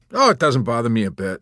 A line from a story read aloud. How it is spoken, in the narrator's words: responded cheerfully